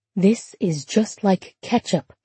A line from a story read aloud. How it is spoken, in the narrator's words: Laura whispered